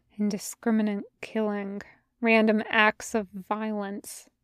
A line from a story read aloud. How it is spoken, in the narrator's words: she says quietly